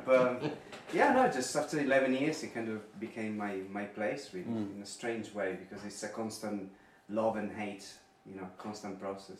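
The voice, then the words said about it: Italian accent. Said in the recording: “I come from abroad, so I'm Italian in case you didn't get the accent.”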